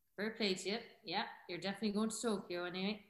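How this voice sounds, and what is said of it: Put-on Cork Irish accent. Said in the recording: “He's from right. Cork, so that's the type of accent he'd say it on.”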